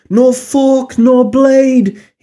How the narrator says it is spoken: sang, his voice hollow

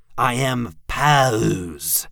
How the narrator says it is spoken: the imp growled, enunciating it

